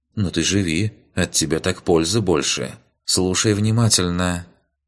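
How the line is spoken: Serious young woman's voice. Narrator (Russian): уже серьезным голосом продолжила девушка

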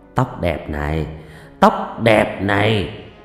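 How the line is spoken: Muttering. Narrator (Vietnamese): anh chồng mồm lẩm bẩm

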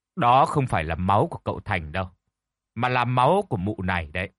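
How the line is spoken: Cold. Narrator (Vietnamese): Thầy Tín nói cái giọng lạnh lùng

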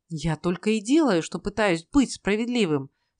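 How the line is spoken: Exasperated exclamation. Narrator (Russian): в сердцах воскликнул Ной

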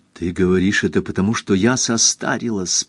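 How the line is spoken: Whisper. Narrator (Russian): прошептал Осхильд

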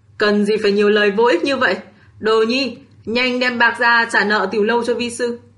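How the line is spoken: Irritated, cold. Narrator (Vietnamese): Độc Thánh không nhịn được mà nổi quạo, mặt xa sầm lạnh lùng

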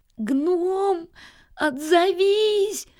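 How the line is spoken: Tearful shouting. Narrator (Russian): кричал он сквозь слезы

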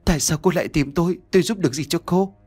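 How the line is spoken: Trembling question. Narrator (Vietnamese): Nhã Kiều liền miệng run rẩy hỏi

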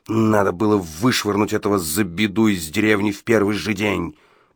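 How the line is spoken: Growled. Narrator (Russian): прорычал Гадсон

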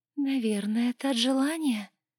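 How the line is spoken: Sweet cooing. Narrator (Russian): сладко проворковала она

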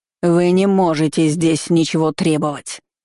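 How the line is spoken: Fierce dragon-like growl. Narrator (Russian): Целительница рычала похлеще дракона в боевой ипостаси

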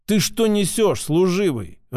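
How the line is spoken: Growl. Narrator (Russian): рыкнул я

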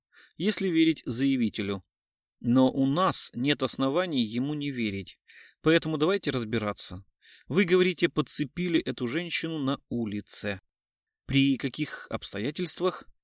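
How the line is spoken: Calm. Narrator (Russian): спокойно сказал Кричко

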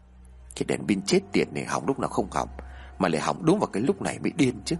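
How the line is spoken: Annoyed mutter. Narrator (Vietnamese): Anh Hòa lẩm bẩm ở trong miệng

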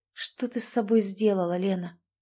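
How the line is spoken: Quiet question to herself. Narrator (Russian): тихо спросила она саму себя

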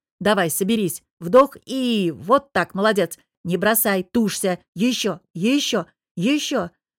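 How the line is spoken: Growling through clenched teeth. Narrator (Russian): Тужась из последних сил, стиснув зубы, зарычала

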